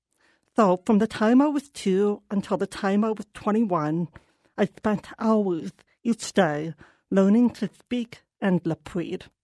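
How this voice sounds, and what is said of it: Deaf speaker's accent. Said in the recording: “This accent, it took a lot of work.”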